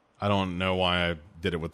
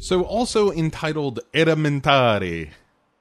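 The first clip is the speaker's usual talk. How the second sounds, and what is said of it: Italian accent on one word. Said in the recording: “with an Italian accent”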